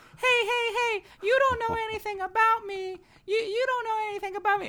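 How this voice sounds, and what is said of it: Imitates another person's voice. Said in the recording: “let me do a better impression of him”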